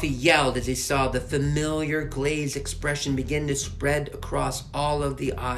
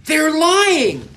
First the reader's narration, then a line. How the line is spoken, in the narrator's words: Alfie yelled